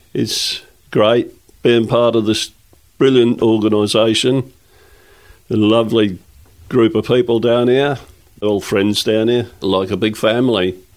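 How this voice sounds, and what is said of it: East Anglian mixed with Australian accent. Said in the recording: “the hybrid of your accent, which has kind of got a bit of East Anglia, but mixed with the Australian”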